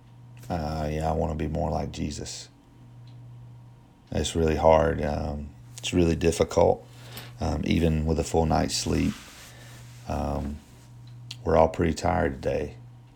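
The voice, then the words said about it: Strained, fading voice. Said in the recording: “You can tell by my voice. My voice has been kind of going out all week. Part of that's from screaming for the Clemson game.”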